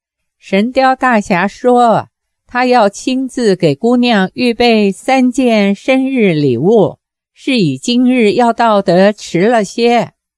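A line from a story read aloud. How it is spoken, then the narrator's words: Smiling. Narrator (Chinese): 大头鬼微笑说道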